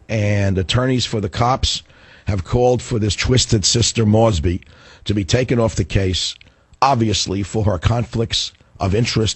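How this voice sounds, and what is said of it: Hoarse, breaking-up voice. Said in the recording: “my voice is breaking up, as you can hear. I feel better, but my voice is worse ... my voice isn't really going”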